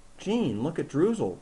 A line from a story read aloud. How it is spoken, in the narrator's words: the girl exclaimed